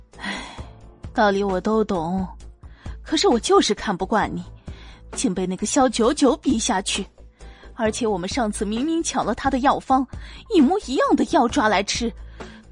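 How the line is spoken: Sighing. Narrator (Chinese): 柳如梅低头叹了口气

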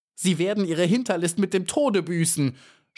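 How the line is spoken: Screaming. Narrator (German): schrie sie der Spinne entgegen

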